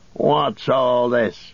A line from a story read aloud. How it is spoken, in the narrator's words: he snarled